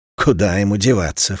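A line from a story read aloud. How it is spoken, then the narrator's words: Snort. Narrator (Russian): фыркнула кормилица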